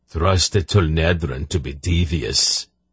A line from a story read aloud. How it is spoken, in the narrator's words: Unheg growled